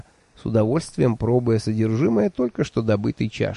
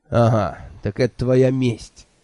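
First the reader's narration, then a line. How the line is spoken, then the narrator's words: Snort. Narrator (Russian): хмыкнул Анчифа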